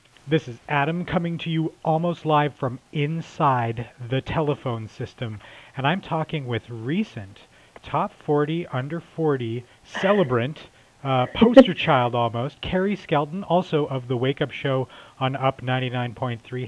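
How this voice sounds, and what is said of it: Out of breath. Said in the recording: “I'm actually out of breath right now.”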